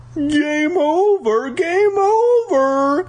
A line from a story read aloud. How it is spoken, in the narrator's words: Flag shouted